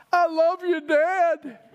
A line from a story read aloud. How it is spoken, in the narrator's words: one of the players shout out